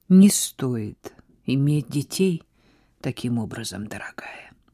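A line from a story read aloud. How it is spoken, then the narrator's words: Quiet remark. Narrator (Russian): тихо заметила Сара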